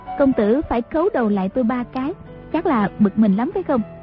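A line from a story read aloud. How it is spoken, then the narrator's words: Smiling question. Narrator (Vietnamese): Nàng mỉm cười hỏi Đoàn Dự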